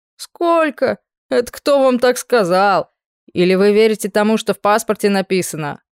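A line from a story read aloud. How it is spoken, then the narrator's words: Snorting mustached man. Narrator (Russian): Хмыкнул усатый дядька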